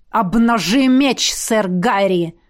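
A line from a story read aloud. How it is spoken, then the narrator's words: Barked command. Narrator (Russian): рявкнул Лейр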